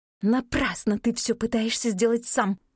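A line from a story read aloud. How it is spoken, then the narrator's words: Hissing whisper. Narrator (Russian): произнесла мифрау свистящим шепотом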